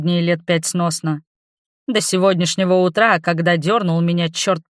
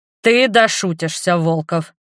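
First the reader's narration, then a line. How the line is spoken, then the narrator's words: Booming boss. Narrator (Russian): прогремел начальник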